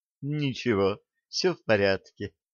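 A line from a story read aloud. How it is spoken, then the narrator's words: Weak whisper. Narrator (Russian): прошептала, заставив себя открыть глаза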